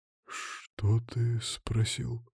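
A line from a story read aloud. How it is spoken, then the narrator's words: Whisper. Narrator (Russian): прошептал он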